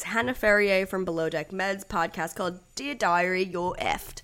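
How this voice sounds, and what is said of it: Attempted Australian accent. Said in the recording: “That's my attempt at an Australian accent.”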